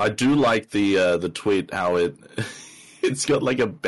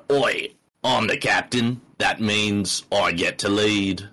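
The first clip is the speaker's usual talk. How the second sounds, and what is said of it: Put-on Australian accent. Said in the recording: “Is it that Aussie, or is it a bit Aussie light?”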